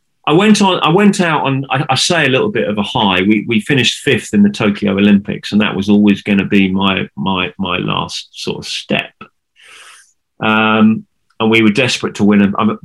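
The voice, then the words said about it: Emotional, choked-up voice. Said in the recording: “I'm just getting quite a little bit emotional here”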